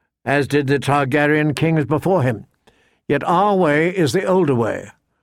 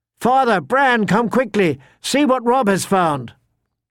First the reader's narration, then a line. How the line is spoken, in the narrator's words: shouted down at them